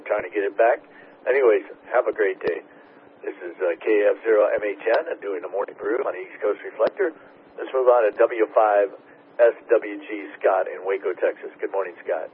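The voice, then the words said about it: Hoarse voice. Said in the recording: “My voice is kind of hoarse”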